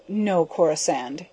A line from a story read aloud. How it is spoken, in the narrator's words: he sighed